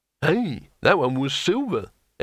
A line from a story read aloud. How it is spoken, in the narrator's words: exclaimed Harun